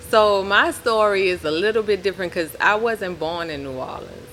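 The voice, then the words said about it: New Orleans accent. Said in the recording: “When you talk, the accent comes out a little bit ... Now it's coming out even more.”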